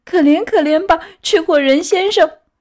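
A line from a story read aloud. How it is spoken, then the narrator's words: Wailing, sobbing plea. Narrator (Chinese): 匹诺乔嚎啕大哭，开始哀求他说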